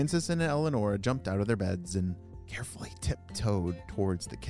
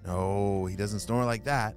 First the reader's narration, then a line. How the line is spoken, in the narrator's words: said Francis